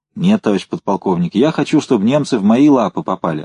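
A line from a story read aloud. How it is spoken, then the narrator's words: Plain. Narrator (Russian): ответил Толя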